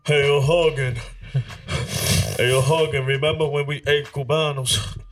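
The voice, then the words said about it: Imitates another person's voice. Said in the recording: “This the worst impression, right? ... Nah, it's actually pretty solid, bro. ... I'm doing an impression.”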